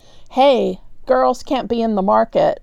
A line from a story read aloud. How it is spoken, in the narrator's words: snarled a merchant